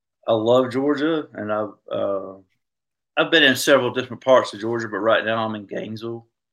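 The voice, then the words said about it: Southern US Georgia accent. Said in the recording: “I grew up in Georgia, and you can probably tell by my accent”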